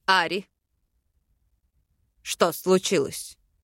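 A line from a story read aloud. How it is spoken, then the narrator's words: Husky breathy exhale. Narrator (Russian): Сипло выдохнул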